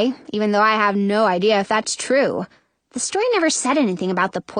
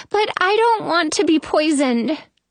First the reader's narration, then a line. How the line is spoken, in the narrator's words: Snow whines